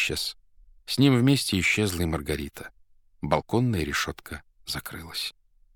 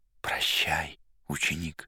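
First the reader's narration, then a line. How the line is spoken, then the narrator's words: Barely audible speech. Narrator (Russian): чуть слышно сказал мастер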